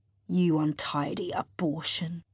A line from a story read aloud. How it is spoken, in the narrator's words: Severo hisses at Lilith through mashed lips